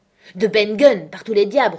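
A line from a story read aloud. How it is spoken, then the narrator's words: Roaring. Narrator (French): rugit Silver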